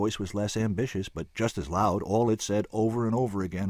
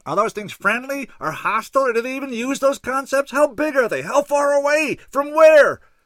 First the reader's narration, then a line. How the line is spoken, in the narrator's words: One yelled